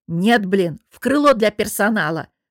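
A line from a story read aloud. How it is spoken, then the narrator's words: Angry bark. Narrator (Russian): выходя из себя, рявкнула я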